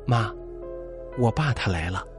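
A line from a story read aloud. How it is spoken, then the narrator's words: Soft quiet voice. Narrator (Chinese): 张小新向空气轻声说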